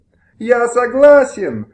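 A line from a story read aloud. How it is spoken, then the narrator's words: Unhappy man shouting. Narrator (Russian): закричал несчастный кредитор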